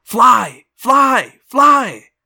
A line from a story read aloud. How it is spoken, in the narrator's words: The hawk in my head screamed